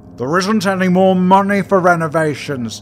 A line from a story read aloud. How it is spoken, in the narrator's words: shouted Ken, getting angry